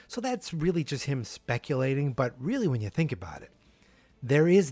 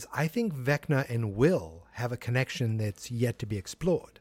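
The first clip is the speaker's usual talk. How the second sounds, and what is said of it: Put-on accent while quoting. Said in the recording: “I don't know why I tried to do the accent there.”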